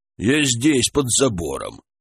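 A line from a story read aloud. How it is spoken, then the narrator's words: Quiet answer. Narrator (Russian): ответил негромко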